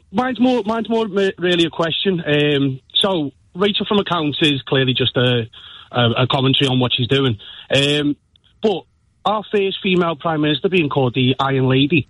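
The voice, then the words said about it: Liverpool accent. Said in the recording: “by the accent, you can tell I'm a blue”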